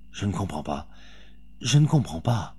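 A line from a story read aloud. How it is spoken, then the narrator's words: Murmuring woman. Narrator (French): murmura la Bretonne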